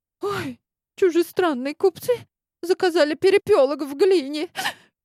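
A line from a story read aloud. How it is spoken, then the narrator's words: Sobbing mother. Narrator (Russian): Всхлипывает мама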